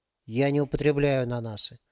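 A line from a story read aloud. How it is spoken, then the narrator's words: Calm statement. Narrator (Russian): спокойно сообщил мужчина с портфелем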